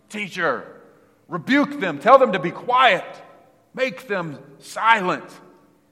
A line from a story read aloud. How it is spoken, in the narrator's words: And they were shouting